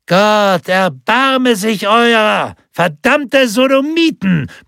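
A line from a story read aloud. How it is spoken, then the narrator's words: Ecstatic bellowing. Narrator (German): brüllte er voller unbändiger Begeisterung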